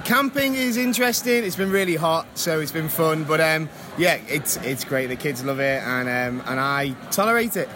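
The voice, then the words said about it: Liverpool-area English accent. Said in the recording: “check out that accent ... From Wirral, which is a little bit right next to Liverpool.”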